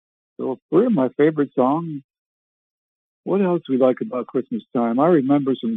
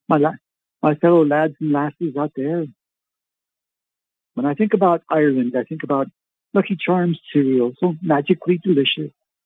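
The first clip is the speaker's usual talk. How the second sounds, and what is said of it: Put-on Irish accent. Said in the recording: “She was Irish, so I can speak a little bit of Irish. You know, can you speak Irish”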